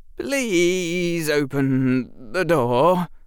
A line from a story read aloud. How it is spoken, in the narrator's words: Harry said, his voice trembling